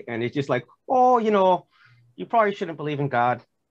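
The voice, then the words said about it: Clumsy Canadian accent drifting Irish. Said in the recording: “that's kind of going Irish there ... I probably butchered that accent”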